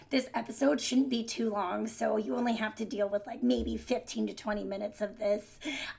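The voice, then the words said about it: Raspy, hoarse voice. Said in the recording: “my voice is a little bit better than last episode, but we're still not great... the raspiness”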